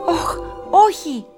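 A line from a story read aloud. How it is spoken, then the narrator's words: Shouted. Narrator (Greek): φώναξε ο Άρθουρ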